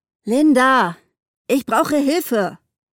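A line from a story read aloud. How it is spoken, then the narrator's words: Called out. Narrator (German): rief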